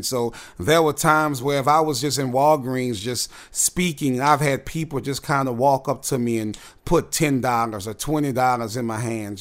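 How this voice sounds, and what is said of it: Strong New Orleans accent. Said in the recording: “In New Orleans, we have a strong accent.”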